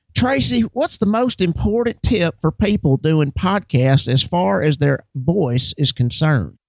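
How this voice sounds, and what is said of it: Put-on Southern accent. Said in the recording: “I'm going to ask the next question in a Southern accent ... I was so distressed by that voice.”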